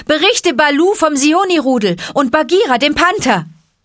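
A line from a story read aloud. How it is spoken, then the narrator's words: Calling out. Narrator (German): rief Mowgli ihm zu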